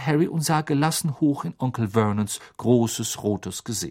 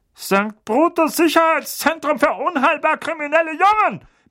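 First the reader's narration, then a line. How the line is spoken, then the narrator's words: Barked with hint of panic. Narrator (German): bellte, einen deutlichen Anflug von Panik in seiner Stimme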